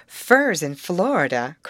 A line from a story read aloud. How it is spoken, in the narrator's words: cried Molly